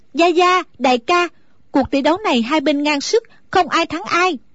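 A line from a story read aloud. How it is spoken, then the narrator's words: Relieved, loud call. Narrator (Vietnamese): A Tú thở phào một cái như cất được gánh nặng, nàng lớn tiếng gọi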